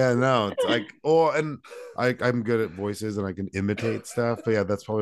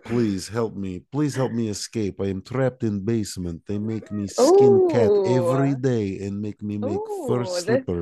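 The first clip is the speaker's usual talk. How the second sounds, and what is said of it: Fake but convincing Russian accent. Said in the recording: “My Russian accent is fake, but it is ... very good. ... Very believable.”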